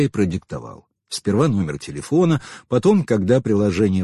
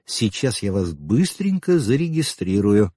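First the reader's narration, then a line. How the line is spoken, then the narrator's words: Plain. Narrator (Russian): сказала Майя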